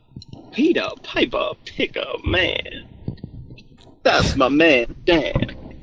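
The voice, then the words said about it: Wild, cartoonish jazz-musician voice. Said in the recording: “Dude, you sound like an insane person ... You sound like what a cartoon would make to tell kids to stay away from ... You sound like a jazz musician from the 40s, like high on heroin”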